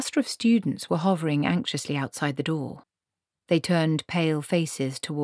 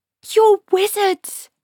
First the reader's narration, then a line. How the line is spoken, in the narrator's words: she screamed